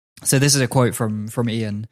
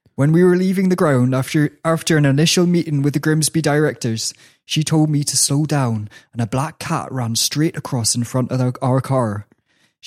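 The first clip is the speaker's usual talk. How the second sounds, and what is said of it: West Country English accent. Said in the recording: “I'll do it in the West Country accent.”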